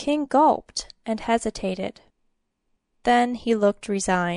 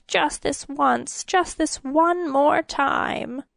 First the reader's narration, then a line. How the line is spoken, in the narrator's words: the king suddenly whined